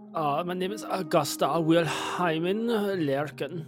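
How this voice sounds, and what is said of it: Put-on German accent. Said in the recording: “How you say that in a German accent?”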